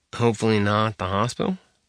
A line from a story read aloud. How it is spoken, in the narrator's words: mumbled under his breath